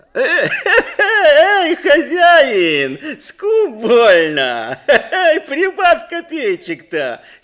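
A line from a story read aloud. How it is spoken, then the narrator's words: Laughing from below. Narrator (Russian): Смеялись снизу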